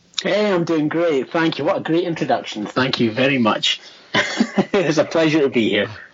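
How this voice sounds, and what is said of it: Scottish accent. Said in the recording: “That beautiful Scottish accent just has a way of captivating you.”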